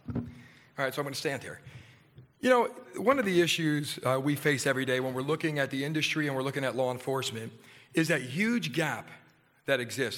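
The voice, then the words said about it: Hoarse voice from laryngitis. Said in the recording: “fighting a little bit of laryngitis”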